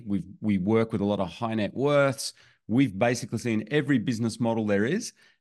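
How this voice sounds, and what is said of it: Australian accent. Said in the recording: “we live in Australia, as you can maybe tell from my accent.”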